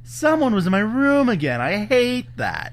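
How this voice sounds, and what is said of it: Imitates a puppet character's voice. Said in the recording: “That's my Hoggle. That's my Hoggle impression.”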